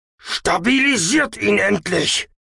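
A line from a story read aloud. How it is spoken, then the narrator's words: Shouting. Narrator (German): schrie der Orbton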